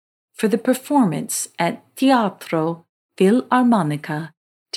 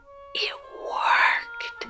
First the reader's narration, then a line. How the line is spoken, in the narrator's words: whispered